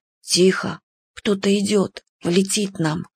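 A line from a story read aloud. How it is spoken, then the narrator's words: Whispered. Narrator (Russian): шепотом сказал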